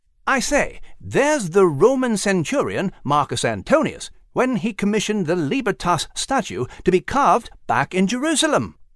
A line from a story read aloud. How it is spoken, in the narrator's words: Nigel exclaimed